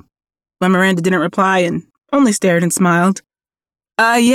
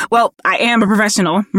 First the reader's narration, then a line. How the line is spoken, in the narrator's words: Miranda spat out nervously